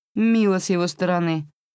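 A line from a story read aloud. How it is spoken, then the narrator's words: Snort. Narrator (Russian): фыркнула Био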